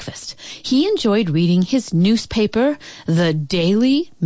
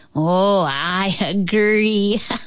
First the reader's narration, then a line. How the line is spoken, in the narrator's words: laughed